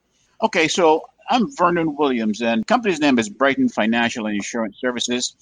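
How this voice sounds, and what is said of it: Caribbean accent. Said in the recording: “as you probably can tell from my accent, I'm from the Caribbean”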